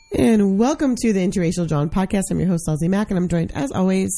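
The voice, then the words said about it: Hoarse, sick-sounding voice. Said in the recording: “I apologize in advance for my horrible voice this week. ... It's a little different. ... I'm hoarse. I'm sick.”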